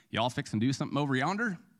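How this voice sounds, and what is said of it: Put-on Southern drawl. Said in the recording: “We expect a Southern accent to be like ... That's pretty good, huh?”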